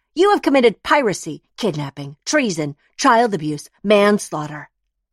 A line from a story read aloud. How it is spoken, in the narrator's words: Jane, the lawyer, yells